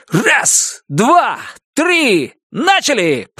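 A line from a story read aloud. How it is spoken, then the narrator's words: Shouting. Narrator (Russian): прокричал я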